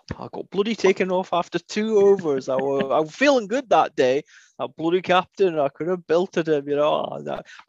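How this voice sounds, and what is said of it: Strong put-on Yorkshire accent. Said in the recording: “when I moan, I take on a Yorkshire accent ... you were extremely Yorkshire there.”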